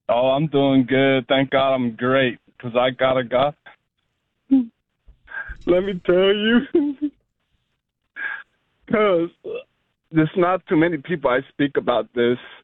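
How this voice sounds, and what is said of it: Emotional, choked-up voice with pauses. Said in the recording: “I don't know why I still get emotional, but I'll get a hold of myself”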